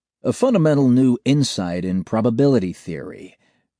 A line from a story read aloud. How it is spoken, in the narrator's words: Oscar says smoothly